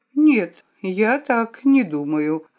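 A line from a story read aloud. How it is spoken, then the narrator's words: Calm reply. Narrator (Russian): ответила я спокойно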